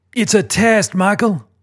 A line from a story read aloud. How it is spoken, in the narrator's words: David shouts